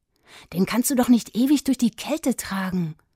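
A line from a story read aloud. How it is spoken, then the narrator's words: Boy hissing. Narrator (German): fauchte der Junge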